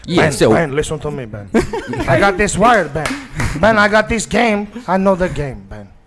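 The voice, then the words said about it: Put-on vaguely African accent. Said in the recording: “I must immediately change my accent. ... Sounds vaguely African.”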